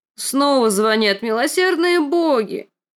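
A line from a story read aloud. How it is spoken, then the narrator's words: Old woman moaning. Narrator (Russian): простонала старуха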